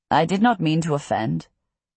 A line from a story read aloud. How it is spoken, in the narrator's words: he says stiffly